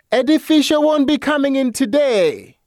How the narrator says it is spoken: From the darkness, a voice bellowed

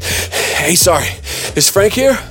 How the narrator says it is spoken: Dripping wet and panting, I looked at Merv and said

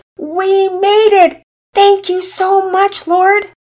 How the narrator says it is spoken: Mama Peters nearly shouted

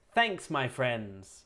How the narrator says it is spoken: He called out

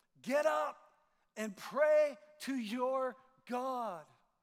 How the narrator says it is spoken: the captain shouts

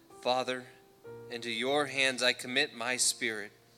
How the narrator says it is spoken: Jesus called out with a loud voice, said

